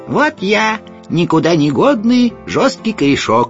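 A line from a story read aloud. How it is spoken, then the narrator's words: Sharp thin voice. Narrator (Russian): резким тонким голосом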